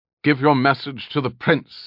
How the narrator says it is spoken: Alanon snapped

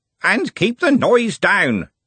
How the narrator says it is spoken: Smeems bellowed

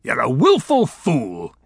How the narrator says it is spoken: he bellowed

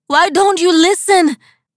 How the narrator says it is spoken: wailed Rosa

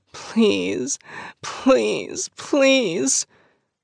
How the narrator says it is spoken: she cries out

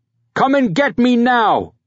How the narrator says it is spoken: He shouted at the top of his lungs

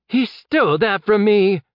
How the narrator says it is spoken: The Kegan shouted, growing desperate

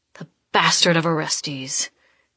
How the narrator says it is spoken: he snarls

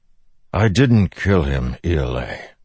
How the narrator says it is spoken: Dalinar said wearily

